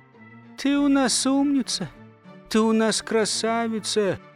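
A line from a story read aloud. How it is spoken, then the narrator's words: Wife's sigh. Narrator (Russian): Как-то вздохнула жена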